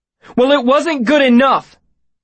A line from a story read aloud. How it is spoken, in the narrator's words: Kryn shouted back hotly